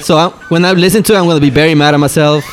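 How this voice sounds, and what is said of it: Strong accent, fast speech. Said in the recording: “I have the worst accent. I know I speak fast.”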